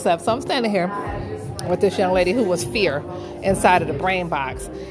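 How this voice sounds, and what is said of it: Out of breath. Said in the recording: “I'm out of breath”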